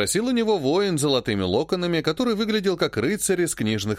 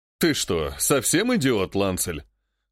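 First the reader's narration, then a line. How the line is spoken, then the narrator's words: Laughing remark. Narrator (Russian): хохотнул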